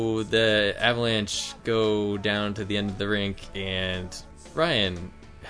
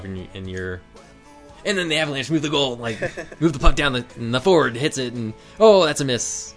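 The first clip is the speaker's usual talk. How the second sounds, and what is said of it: Imitates another person's sports commentary voice. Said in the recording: “My best impression of you doing hockey”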